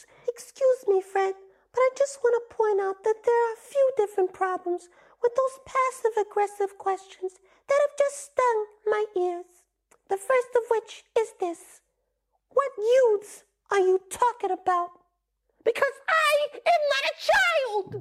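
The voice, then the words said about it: High-pitched character voice. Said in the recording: “I have this high voice”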